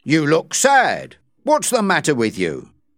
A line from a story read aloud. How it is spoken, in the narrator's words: asked impatiently